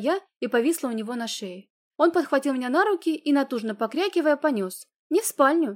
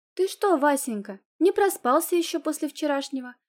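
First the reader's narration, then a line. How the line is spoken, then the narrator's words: Gentle inquiry. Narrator (Russian): Ласково поинтересовалась я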